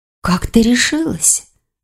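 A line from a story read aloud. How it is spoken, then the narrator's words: Whispered question. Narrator (Russian): шепотом спросила Таис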